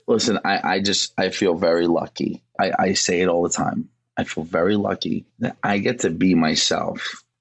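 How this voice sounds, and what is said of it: Bronx New York accent. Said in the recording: “stop with the fake accent ... I grew up on 241st and White Plains Road in the Bronx”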